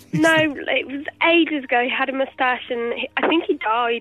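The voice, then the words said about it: Sick, tearful-sounding voice. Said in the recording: “you sound like you've been crying ... I'm poorly sick”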